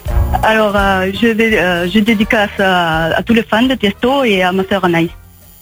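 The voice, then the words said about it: Spanish accent in French. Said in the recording (French): “avec un accent pareil ... t'es espagnole? ... parce qu'elle avait un accent”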